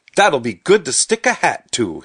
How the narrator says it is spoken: he said cheerfully

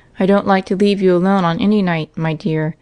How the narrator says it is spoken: said Mr

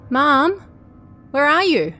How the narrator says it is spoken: called out

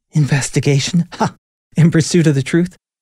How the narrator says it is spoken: spat out and laughed in disgust

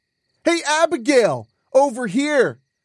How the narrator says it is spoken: Chunker called out

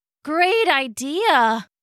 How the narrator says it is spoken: groaned Ghibli

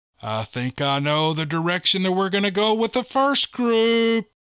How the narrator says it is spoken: He turned and yelled back to the crowd

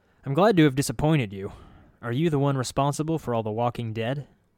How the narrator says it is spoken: He chuckled

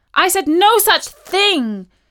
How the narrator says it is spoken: insisted Katie loudly

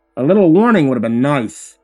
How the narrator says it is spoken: I grumbled

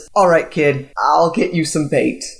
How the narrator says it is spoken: she chuckles, and says

